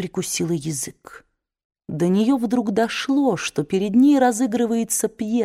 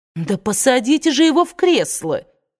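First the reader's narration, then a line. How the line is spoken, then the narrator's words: Indignant shout. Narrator (Russian): возмущенно выкрикнула Мелани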